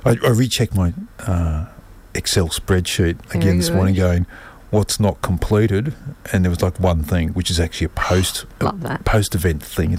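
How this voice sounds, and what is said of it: Hoarse voice. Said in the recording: “I'm hoarse from talking about it.”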